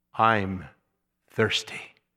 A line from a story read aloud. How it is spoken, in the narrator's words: In his dying moment, he gasped